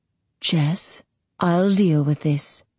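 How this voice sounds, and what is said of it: Low voice. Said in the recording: “in a low voice”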